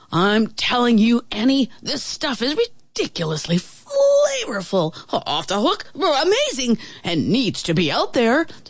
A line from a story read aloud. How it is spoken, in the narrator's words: the traveling chef exclaimed